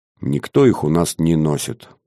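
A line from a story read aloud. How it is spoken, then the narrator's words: Gruff mutter. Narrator (Russian): буркнул Платон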